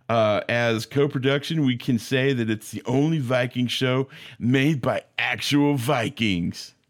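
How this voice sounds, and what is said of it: Surfer-dude character voice. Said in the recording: “I don't know why he's a surfer, but I just wanted to give him that voice.”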